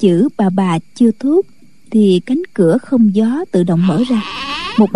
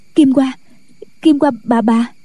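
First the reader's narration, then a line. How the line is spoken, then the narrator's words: Panicked stammer. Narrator (Vietnamese): Kỷ Hiểu Phù hớt hải chạy vào buồng, mặt tái nhợt, nói lắp bắp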